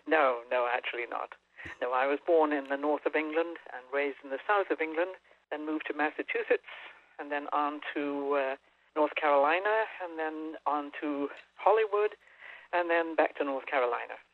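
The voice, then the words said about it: Non-American, English-sounding accent. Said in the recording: “she says it beautifully with that accent of hers ... You don't sound like a native of North Carolina”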